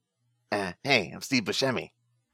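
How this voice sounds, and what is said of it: Steve Buscemi impression. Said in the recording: “Great impression. ... That sounded just like him.”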